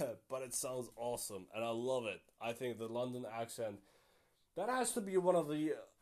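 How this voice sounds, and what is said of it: Usual voice. Nothing is said of it.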